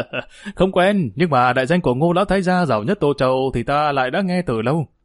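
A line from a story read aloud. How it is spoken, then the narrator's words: Laughing loudly. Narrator (Vietnamese): Vương Long cười lớn đáp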